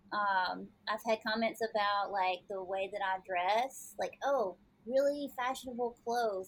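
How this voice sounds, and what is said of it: Southern American accent. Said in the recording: “I got the Southern accent. I've had that one before.”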